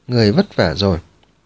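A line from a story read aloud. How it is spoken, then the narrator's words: Gentle, smiling. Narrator (Vietnamese): Miêu Hoàn Tịnh Vũ mỉm cười, ôn hòa nói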